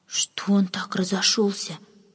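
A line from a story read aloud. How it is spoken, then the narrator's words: Whispered question. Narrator (Russian): шепотом спросила одна служанка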